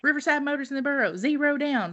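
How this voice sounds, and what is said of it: Radio car commercial announcer voice. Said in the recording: “that's like the accent that the commercials are”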